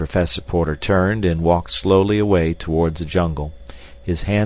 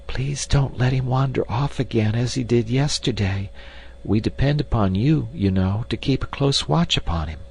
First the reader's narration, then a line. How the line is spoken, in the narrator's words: she whispered